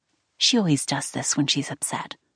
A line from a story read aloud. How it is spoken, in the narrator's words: Courtney whispered